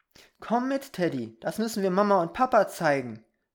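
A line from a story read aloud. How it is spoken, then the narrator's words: Called out. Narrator (German): rief Peter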